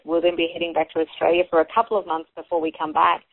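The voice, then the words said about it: Australian accent. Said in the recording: “I will probably once again have a very renewed Aussie accent”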